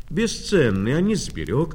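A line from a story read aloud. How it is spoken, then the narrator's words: Young girl exclaiming. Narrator (Russian): воскликнула внучка Наташа, пионерка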